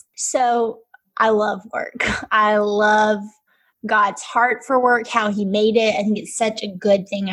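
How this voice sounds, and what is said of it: Southern American Alabama accent. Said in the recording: “hence my accent, in Alabama”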